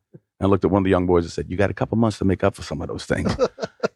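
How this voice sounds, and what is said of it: Slight New York accent. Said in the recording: “Santa with the slightly New York accent”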